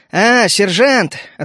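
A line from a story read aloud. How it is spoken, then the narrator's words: Grunting chuckle. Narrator (Russian): хмыкнул я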